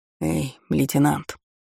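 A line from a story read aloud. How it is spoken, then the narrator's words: Whispered call. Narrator (Russian): Шепотом окликнулся товарища один из рейтеров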